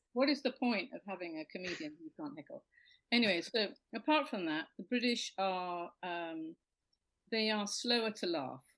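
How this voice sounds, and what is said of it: British accent. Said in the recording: “I have the advantage of the accent. And if you have this accent, basically you are more intelligent... everything's better with this accent... they're expecting you to be Monty Python”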